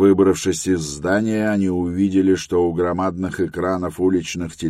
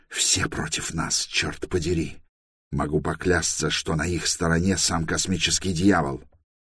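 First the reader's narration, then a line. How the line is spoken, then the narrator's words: Furious whisper. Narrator (Russian): добавил яростным шепотом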